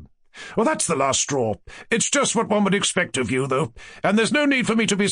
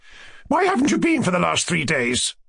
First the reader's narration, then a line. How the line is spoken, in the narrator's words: She cried impatiently once more